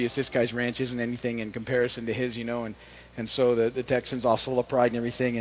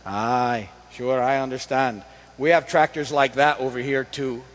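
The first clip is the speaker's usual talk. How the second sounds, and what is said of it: Put-on Scottish accent, not great. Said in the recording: “the Scottish farmer says ... The accent, I think, is... Maybe it'll be better tomorrow.”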